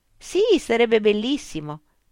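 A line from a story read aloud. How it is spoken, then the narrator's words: Exclaimed. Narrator (Italian): esclamò Rosalind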